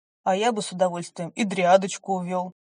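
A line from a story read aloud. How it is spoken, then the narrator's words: Amused snort. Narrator (Russian): хмыкнул высокий блондин, еще один брат лорда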